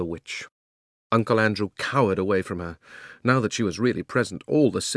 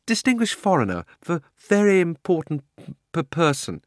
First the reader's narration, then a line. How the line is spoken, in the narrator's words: he stammered